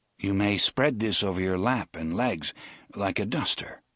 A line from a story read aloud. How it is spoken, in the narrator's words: he said